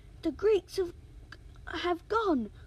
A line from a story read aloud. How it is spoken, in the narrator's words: cried one soldier